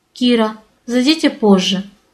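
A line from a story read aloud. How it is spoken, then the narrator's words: Even but tense. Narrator (Russian): Совершенно ровным, но напряженным голосом попросил Александр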